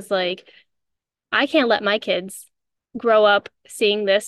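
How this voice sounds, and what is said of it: Usual voice. Nothing is said of it.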